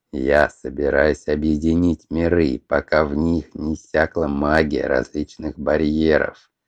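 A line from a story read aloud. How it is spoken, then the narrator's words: Plain, dragon. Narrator (Russian): ответил белый дракон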